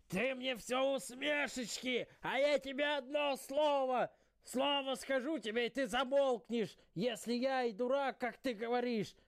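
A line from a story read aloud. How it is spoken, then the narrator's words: Old man shouting. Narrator (Russian): Дед кричал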